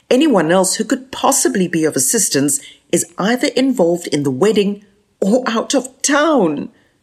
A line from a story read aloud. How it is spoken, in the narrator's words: cried Joe